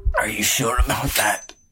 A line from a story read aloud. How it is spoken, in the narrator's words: Lee gasped